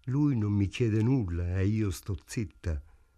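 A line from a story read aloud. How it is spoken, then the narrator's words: Sad. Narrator (Italian): disse tristemente Ida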